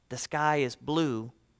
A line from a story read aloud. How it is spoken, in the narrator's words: Miss Leonard whispered in her ear, she said